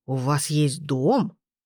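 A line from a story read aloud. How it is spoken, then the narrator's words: Amazed exclamation. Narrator (Russian): А Расмус воскликнул изумленно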